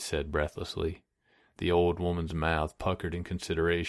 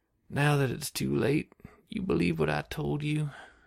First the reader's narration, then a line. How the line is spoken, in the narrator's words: She sighed heavily